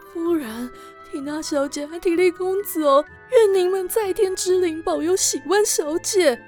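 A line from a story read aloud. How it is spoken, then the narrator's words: Heavy sigh, murmuring. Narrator (Chinese): 阿梅重重叹气，喃喃自语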